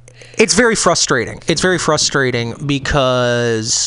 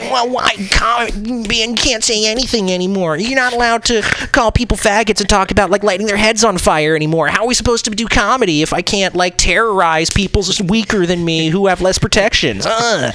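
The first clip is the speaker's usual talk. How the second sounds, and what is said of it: Impression of complaining old comedians. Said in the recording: “it's a very good impression.”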